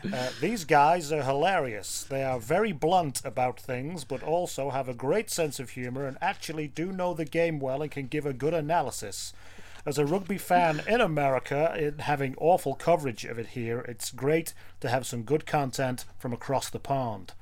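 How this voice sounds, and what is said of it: Put-on American accent. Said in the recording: “I'll try to do an American accent to make it, you know, more genuine.”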